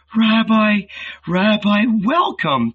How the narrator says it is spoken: she purred

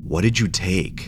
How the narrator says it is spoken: asked in a demanding tone

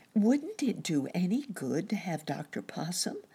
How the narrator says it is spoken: asked Nurse Jane

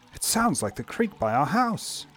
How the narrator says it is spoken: she gasped

